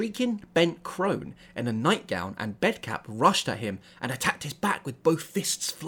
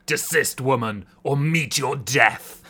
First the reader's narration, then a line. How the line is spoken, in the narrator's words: Marco roared